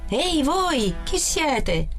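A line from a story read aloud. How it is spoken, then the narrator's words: Guard shouting. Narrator (Italian): Il guardiano gridò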